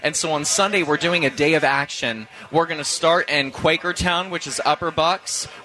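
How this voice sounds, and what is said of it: Midwestern American accent. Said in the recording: “What is that blend of accent? Is that the Virginia accent, the hard scrapple accent? ... This is my beautiful Midwestern accent coming out.”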